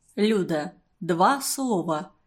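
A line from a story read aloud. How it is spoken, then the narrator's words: Quiet. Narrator (Russian): тихо проговорил он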